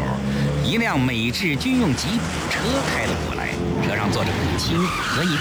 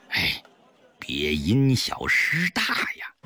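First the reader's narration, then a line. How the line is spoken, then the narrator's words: Low warning. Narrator (Chinese): 赵师傅低声告诫肥肥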